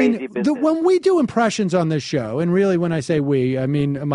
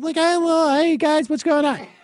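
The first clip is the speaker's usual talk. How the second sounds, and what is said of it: Imitates another person's voice. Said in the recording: “I do like an Andy Kindler ... That's a good impression”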